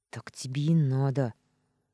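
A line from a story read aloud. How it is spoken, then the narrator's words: Grumbled under breath. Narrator (Russian): проворчала про себя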